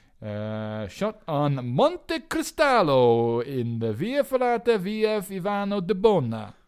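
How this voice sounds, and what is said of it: Italian-accented pronunciation of place names. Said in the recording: “Good accent.”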